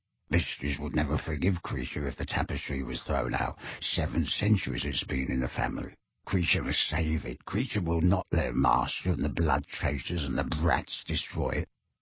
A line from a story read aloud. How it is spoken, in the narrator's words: said the elf, then muttered very fast